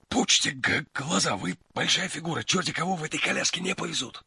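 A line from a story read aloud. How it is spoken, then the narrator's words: Whisper. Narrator (Russian): шепнул Фондорин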